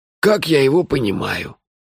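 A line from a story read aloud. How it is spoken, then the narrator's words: Sarcastic snort. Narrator (Russian): язвительно фыркнул мой друг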